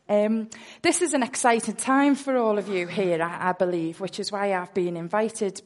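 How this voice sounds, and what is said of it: Liverpool Scouse accent. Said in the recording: “I am from Liverpool, which you may pick up from my wonderful accent... a Scouser”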